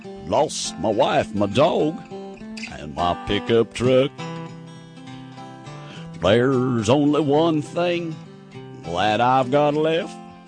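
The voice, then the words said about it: Singing cowboy character voice. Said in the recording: “Take 23, the singing cowboy.”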